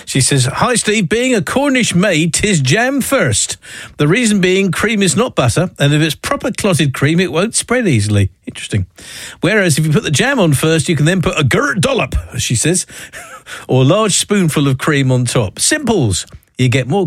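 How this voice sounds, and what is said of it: Put-on Cornish accent. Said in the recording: “don't accuse me of being anti-Cornish in my accent”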